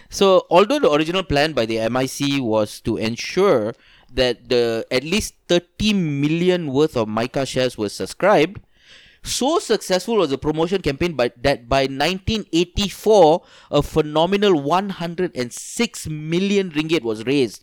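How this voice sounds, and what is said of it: Put-on Indian accent. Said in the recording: “I'm going to use my Shut Indian up. Accent.”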